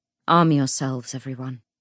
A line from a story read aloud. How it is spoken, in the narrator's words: he said